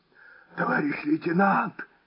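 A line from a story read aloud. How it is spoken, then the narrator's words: Hoarse shout. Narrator (Russian): хрипло выкрикнул он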